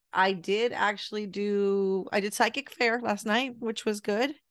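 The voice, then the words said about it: Raspy voice, slightly off. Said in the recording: “My voice is a little off ... I was sick this whole week, and you can tell by my voice is a little off ... that little sexy raspy thing happening”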